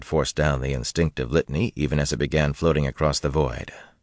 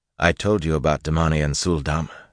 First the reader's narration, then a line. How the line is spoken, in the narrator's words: said calmly